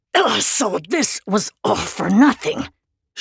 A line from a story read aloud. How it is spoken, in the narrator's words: she said through gritted teeth